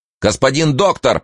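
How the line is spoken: Distant shout from darkness. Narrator (Russian): прокричал Студзинский из тьмы

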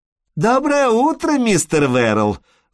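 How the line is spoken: Sugary exclamation from afar. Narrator (Russian): воскликнула миссис Лекерстин сахарным голосом с 20 ярдов

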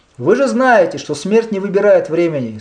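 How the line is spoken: Plain. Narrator (Russian): сказал он

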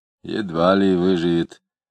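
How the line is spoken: Grumble. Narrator (Russian): проворчал доктор

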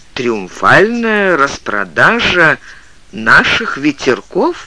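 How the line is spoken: Father, plain. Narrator (Russian): перевел отец

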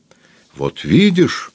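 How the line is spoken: Triumphant exclamation. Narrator (Russian): торжествующе воскликнул Шведфегер

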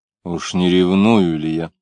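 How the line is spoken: Asking himself. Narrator (Russian): спросил себя Самгин

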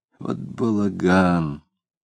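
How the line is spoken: Muttered. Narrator (Russian): Пробормотал он

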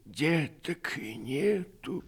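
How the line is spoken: Sad reply. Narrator (Russian): ответила Иона печально

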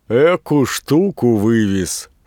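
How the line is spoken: Shouted, laughing. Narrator (Russian): с хохотом закричал Рутилов

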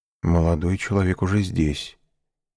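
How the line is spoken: Quiet reply. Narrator (Russian): ответил также тихо камердинер

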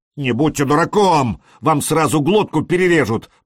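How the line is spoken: Shouting. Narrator (Russian): прокричал Элис

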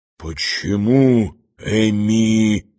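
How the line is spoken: Astonished whisper. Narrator (Russian): шепнул пораженный Берлиоз

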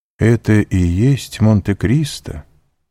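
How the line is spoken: Pensive, sad question. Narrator (Russian): задумчиво и печально спросил путешественник

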